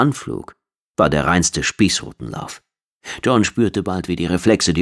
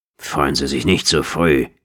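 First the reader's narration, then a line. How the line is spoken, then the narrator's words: Growl. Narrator (German): knurrte Stannis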